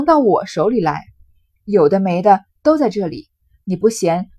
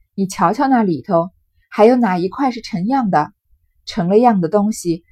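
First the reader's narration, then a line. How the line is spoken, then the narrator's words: Sighing. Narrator (Chinese): 赵姨娘叹口气说道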